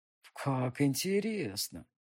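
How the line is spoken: Drawling. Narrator (Russian): протянул он

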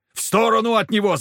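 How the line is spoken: Yelled. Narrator (Russian): заорал я

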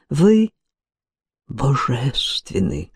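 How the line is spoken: Whisper. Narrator (Russian): прошептал госпоже Дёрн Пустельган

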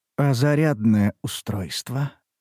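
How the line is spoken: Barely audible question. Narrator (Russian): Едва слышно спрашивает папа

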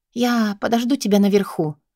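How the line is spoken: Quiet. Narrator (Russian): тихо произношу я

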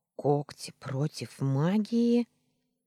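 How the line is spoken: Indignant hiss. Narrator (Russian): возмущался и прошипел

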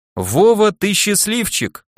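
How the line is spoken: Joyful. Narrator (Russian): радостно сказал мне Келлер

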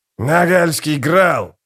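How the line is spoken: Growling. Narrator (Russian): прорычал скрипач

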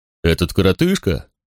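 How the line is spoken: Snorting. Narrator (Russian): фыркнул

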